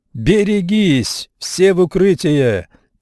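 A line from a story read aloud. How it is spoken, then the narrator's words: Shouted. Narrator (Russian): закричал лейтенант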